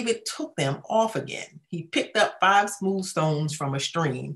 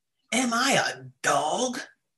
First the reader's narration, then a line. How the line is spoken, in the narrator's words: he roared at David